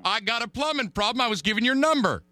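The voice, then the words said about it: Yelling, loud aggressive voice. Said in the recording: “Why are you yelling at me?”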